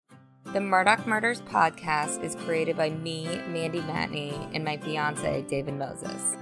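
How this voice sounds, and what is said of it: Speaks with vocal fry. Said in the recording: “my vocal fry”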